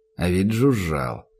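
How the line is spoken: Pitying mumble. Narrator (Russian): пробормотал Данил, которому в раз как-то стало жаль таинственного мутантика

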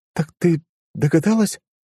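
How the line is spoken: Stunned, breathless. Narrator (Russian): ошарашенно выдохнула Маришка

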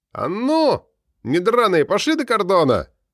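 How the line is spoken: Deliberately loud shout. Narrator (Russian): Нарочно погромче крикнул Глеб

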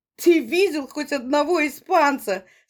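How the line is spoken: Comically phrased question. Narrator (Russian): спросил Корнев так, что все рассмеялись

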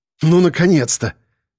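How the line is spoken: Admiring exhale. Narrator (Russian): восхищенно выдохнул Сёма

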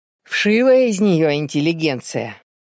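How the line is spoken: Grumbling. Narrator (Russian): ворчал в ответ отец

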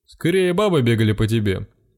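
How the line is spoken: Chuckling. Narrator (Russian): хохотнул рыжий гном

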